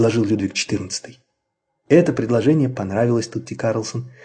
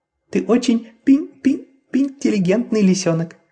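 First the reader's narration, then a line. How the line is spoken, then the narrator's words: Excited squeak. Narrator (Russian): пропищала взволнованная Карлсон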